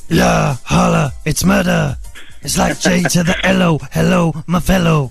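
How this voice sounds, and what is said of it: Imitates another person's voice. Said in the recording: “Could you do your very best impression of Ja Rule, please?”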